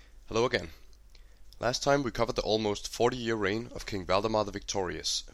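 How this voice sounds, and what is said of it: Hoarse, slightly monotonous voice. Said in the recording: “I was a bit sick, and therefore my voice was hoarse... I sound a bit monotonous”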